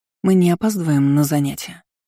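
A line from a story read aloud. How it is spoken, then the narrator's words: Sleepy question. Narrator (Russian): спросила сонно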